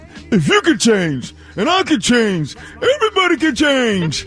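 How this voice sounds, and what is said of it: Rocky Balboa impression. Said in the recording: “Rocky IV. ... I needed that accent.”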